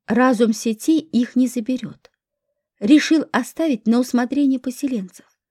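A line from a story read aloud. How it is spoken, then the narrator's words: Plain. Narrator (Russian): ответил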